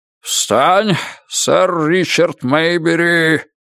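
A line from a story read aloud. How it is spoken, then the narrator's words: Roaring. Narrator (Russian): проревел он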